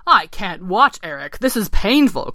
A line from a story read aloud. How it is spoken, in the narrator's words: croaked Ken